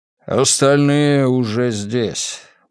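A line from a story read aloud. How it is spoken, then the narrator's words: Tired man's voice. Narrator (Russian): устало произнес мужчина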